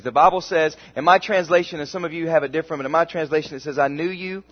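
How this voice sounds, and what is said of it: American southern accent. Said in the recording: “Many of you can hear the southern accent. How many of you can tell I'm from the south?”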